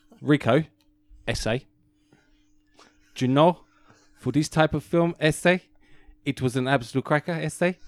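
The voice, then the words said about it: Put-on Mexican accent. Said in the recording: “We know one guy that can do an incredible Mexican accent”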